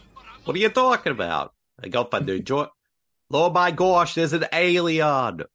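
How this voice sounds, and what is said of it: Put-on Boston accent. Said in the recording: “I don't know what your accent is ... that was Boston”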